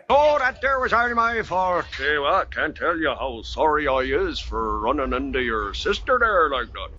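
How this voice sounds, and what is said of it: Jim Carrey's put-on Newfoundland accent. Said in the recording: “this as also being the accent that noted Canadian actor Jim Carrey used when he was playing the sea captain guy ... Newfoundland people”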